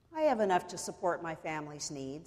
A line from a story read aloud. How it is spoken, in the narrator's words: said the fisherman